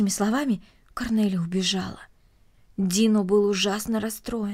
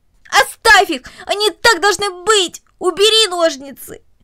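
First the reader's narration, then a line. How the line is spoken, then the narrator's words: Struggling scream. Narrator (Russian): Корнелли, отбиваясь от него обеими руками, буквально закричала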